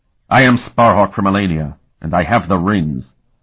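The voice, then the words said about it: Harsh character voice. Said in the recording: “said in that harsh voice.”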